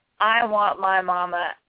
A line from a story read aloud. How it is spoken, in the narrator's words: screamed